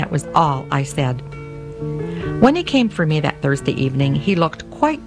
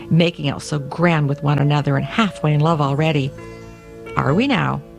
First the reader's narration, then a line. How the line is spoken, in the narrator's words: the cook snorted